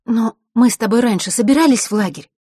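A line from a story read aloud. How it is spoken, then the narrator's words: Anxious sigh. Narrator (Russian): Василиса взволнованно вздохнула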